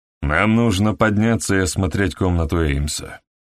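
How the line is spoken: Dispassionate remark. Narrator (Russian): заметил, наконец, Хедли бесстрастным голосом

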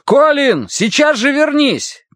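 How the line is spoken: Shout. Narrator (Russian): крикнул Дан Уорти

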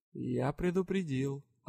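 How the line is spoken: Completely calm. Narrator (Russian): абсолютно спокойно произнес лорд Тьер

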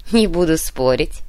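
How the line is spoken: Laughing. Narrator (Russian): рассмеялся Кунцевич

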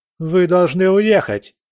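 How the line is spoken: Aristocrat shouting. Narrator (Russian): закричал аристократ

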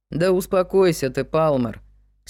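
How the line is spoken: Calm reply. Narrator (Russian): спокойно ответил Вик

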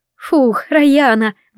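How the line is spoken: Breathy exhale. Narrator (Russian): выдохнула она

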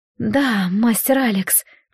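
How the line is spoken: Whisper. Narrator (Russian): прошептала

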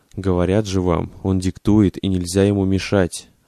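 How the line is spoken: Plain. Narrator (Russian): ответил тот

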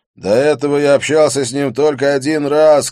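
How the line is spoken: Shouted back. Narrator (Russian): крикнул я в ответ

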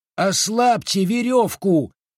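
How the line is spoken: Yelling. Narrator (Russian): заорал тот

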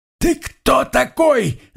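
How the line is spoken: Shouting. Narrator (Russian): заорал он

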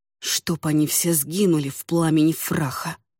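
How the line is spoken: Muttered grumble. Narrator (Russian): проворчал себе под нос

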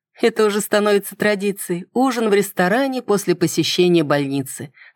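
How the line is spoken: Laughing. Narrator (Russian): рассмеялась я

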